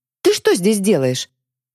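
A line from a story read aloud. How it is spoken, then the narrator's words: Blurted, capricious demanding tone. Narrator (Russian): выпалила Злата своим обычным, капризно-требовательным тоном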